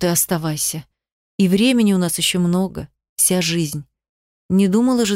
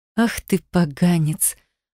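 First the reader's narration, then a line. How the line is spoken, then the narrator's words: Playful laughing. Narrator (Russian): В шутку засмеялась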